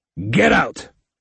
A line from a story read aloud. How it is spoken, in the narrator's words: Vector barked